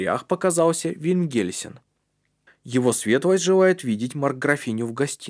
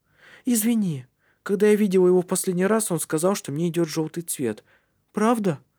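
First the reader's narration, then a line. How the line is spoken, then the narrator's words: Uncertain question. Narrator (Russian): Неуверенно спросила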